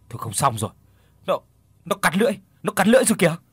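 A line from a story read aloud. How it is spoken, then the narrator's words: Man shouting suddenly. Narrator (Vietnamese): bỗng một tên ở phía sau Hùng hét lên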